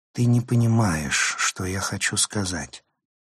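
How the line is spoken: Sighing. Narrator (Russian): вздохнула она

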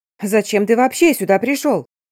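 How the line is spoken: Shouting at each other. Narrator (Russian): орали друг на друга

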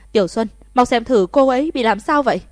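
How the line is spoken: Shouting while running. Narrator (Vietnamese): Thẩm Thất quát to một tiếng, vừa chạy vừa la

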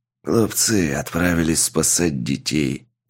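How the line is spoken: Old man grumbling, sighing. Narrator (Russian): проворчал старик и тяжело вздохнул

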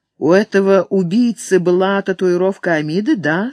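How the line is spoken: Plain. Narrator (Russian): спросила Кири

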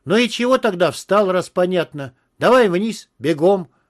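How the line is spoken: Barked shout. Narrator (Russian): рявкнул я

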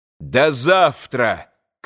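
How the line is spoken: Shouted again. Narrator (Russian): крикнул опять Иван

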